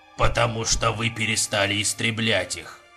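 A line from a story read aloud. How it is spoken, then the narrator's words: Cold. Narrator (Russian): холодно сказал Понтер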